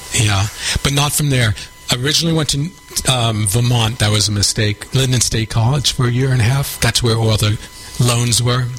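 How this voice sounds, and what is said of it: New York accent. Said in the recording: “you haven't lost your New York accent ... You still got it.”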